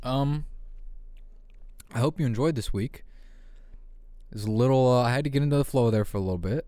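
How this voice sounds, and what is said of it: Slightly fried, worn-out voice. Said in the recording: “My voice is getting a little fried.”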